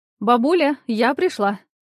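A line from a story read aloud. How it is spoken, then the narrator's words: Joyful. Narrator (Russian): радостно сказала я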